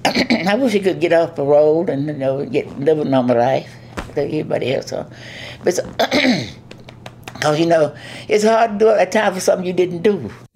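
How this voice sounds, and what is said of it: Hard-to-understand accent. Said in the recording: “accent is sometimes hard to understand.”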